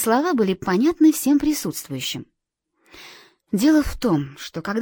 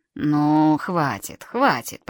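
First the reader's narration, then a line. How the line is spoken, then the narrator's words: Mumbling while chewing. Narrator (Russian): пробормотал дядюшка Ред, прожевывая ветчину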